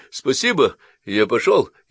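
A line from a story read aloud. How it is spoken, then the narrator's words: Cheerful shout from hallway. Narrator (Russian): крикнуть прямо из прихожей жизнерадостной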